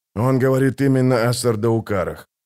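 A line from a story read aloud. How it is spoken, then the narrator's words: Tired. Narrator (Russian): устало кивнул Хават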